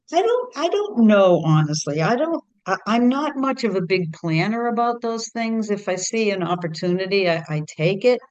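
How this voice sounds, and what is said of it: Strong Boston accent. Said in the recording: “You're Boston based through and through ... You could probably tell that from talking. ... You're famous for your accent.”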